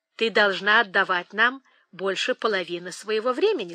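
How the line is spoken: Plain. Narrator (Russian): сказал он

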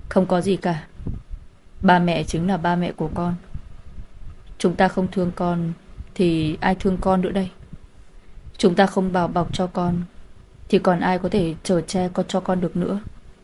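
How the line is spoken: Sighing, gentle old man. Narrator (Vietnamese): ông thở dài một tiếng, ôn hòa nói

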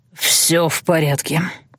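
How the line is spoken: Hoarse wheeze. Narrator (Russian): прохрипел он

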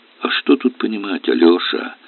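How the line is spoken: Sighing. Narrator (Russian): вздохнул Аристарх Павлович

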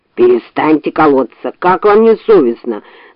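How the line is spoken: Bear's growl. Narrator (Russian): зарычал медведь

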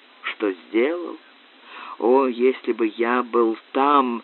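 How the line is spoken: Dull groan. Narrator (Russian): Макферлан глухо застонал

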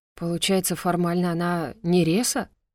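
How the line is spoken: Exhaled through teeth. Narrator (Russian): выдохнул сквозь зубы Шорлд

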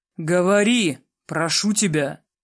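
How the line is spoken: Growling. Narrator (Russian): прорычал я

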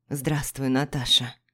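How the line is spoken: Sudden, plain. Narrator (Russian): вдруг сказал

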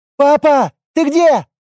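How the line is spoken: Shouted. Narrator (Russian): кричала

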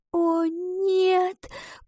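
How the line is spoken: Female whisper. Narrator (Russian): прошептала она

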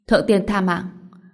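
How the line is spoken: Startled, trembling. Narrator (Vietnamese): Quỷ mẫu giật mình, run rẩy nói

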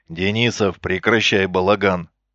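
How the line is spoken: Growled over radio. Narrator (Russian): рыкнул на выделенном канале Исаев

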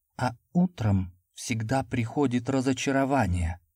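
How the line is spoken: Whisper. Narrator (Russian): прошептала она

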